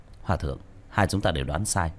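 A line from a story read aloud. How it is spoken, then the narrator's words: Soft, composed. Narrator (Vietnamese): Tiểu Thất hít sâu một hơi, khẽ nói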